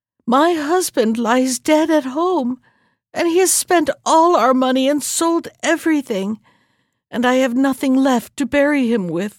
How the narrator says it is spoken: sobbed the wife

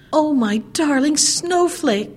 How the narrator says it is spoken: cried the old woman

